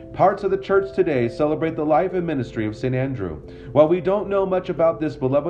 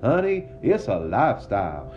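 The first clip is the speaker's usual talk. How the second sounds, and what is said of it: Deep southern accent. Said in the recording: “in a deep southern accent ... How's my southern accent?”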